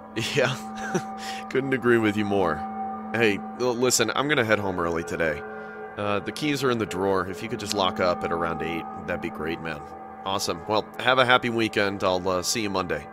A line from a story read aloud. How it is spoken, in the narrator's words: laughed and said